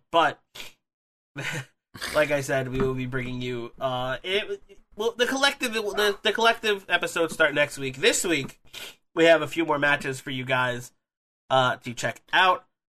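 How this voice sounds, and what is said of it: Congested, sniffly, scratchy voice. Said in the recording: “I have a cold. I'm very sniffly. My throat feels kind of scratchy, so I apologize for if my voice sounds weird”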